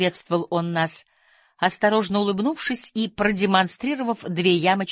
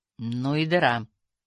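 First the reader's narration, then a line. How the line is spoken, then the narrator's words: Muttered. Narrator (Russian): пробормотал высокий канадец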